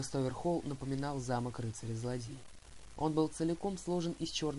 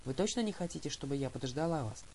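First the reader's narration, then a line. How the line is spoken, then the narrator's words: Plain question, mother. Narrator (Russian): спросила мама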